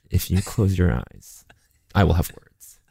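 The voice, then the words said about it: Threatening impression of Matt Rogers. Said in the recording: “do an impression of me to me ... I will have words. That sounds like me.”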